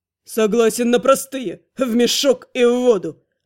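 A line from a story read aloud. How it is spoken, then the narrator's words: Snapping. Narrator (Russian): огрызнулся комендант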